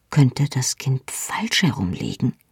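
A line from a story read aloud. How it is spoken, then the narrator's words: Hesitant quiet question. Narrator (German): fragte leise, denn ich zögerte, einer erfahrenen Hebamme eine solche Frage zu stellen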